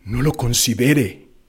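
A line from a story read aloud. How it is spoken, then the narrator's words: Spectator murmuring. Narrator (Spanish): murmuró alguien de los espectadores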